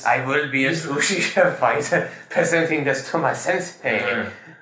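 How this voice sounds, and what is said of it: Put-on Japanese accent. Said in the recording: “He's a Lebanese guy who speaks with a very ... Japanese accent”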